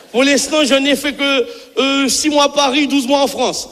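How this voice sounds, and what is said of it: Caribbean French accent. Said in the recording (French): “l'accent, il est là, hein, il est là”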